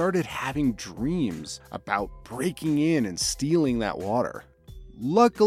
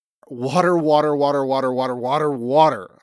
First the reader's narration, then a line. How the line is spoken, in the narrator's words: I blurted out